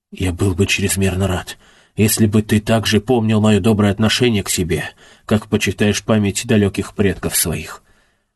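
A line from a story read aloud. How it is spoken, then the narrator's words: Agitated trembling whisper. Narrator (Russian): Ковалинский разволновался и с дрожью в голосе шепотом произнес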